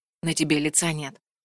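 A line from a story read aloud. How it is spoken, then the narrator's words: Quiet, warm. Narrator (Russian): тихо сказал Вальдекрис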